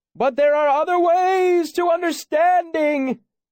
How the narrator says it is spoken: He shouted, laughing like a child

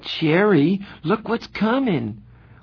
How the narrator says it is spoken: Marcia suddenly gasped

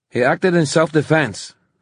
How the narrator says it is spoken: said Christina sharply

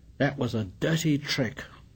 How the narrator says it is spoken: He muttered

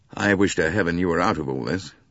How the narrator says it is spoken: said

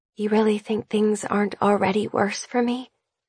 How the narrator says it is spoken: Her whisper, fragile and soft

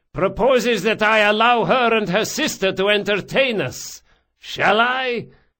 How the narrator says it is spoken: he shouted

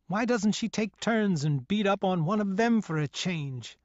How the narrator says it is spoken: I cried to myself as I vented my feelings of hatred

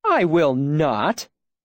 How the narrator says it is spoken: she said, laughing

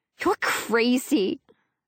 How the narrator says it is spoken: she says, giggling

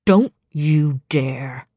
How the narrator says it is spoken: Tamlin snarled

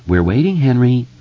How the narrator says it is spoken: Bev said sweetly

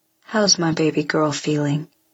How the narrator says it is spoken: he says

